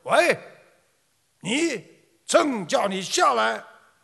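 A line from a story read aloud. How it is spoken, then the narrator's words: Emperor raising his voice. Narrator (Chinese): 皇帝放大声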